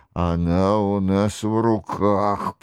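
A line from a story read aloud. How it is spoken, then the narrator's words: Grumbling. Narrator (Russian): проворчал Франсуа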